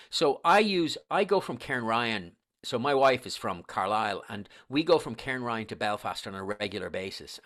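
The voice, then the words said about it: Irish accent. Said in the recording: “you obviously can tell from my accent that I'm Irish ... I'm from Dublin”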